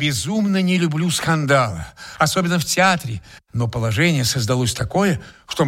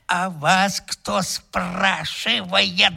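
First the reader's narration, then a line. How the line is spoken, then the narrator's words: Angry. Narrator (Russian): Злобно сосед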